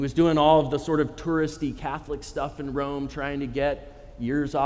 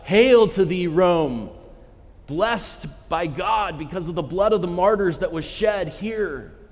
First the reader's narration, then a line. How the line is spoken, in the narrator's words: he fell to the ground and cried out